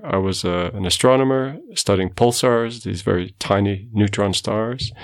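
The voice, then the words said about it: Portuguese-accented English. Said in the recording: “I'm not from South Africa. You can tell from my accent. I was born in Portugal”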